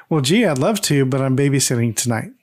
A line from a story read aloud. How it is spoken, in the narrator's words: Kimberly just laughs and says